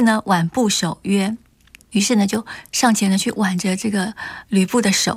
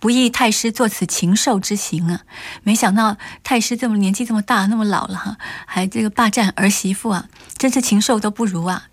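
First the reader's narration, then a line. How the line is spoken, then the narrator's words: Grieved, angry, sighing. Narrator (Chinese): 王允半天呢就是好像悲伤啊或气的说不出话来，良久，唉，叹气叹了很久，就说了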